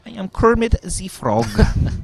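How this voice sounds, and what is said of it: Muppets Kermit the Frog impression. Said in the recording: “I can't stop doing Muppets impersonations.”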